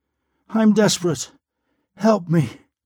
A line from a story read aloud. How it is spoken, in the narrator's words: breathed